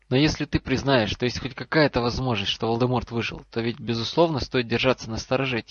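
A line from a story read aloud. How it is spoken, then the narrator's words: Quiet question. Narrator (Russian): тихо спросил Альбус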